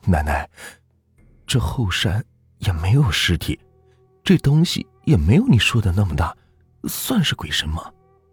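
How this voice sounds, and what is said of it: Quiet, hushed question. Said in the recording (Chinese): “小声的问”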